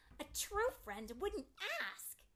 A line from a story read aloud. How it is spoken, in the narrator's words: yelled